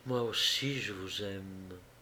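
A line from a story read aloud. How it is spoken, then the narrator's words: Barely audible whisper. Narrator (French): Orette murmura si bas qu'Armand l'entendit à peine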